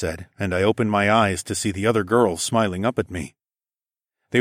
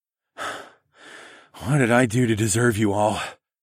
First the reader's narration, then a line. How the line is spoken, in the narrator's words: I panted